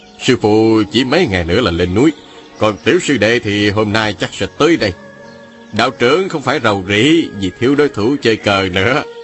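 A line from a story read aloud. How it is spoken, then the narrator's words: Smiling. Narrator (Vietnamese): Hoàng Chân mỉm cười nói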